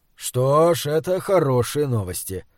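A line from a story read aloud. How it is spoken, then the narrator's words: Tired, smiling. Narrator (Russian): сказал Эулер и устало улыбнулся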